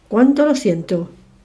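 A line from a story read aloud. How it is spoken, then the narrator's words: Exclaimed. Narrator (Spanish): exclamó Foster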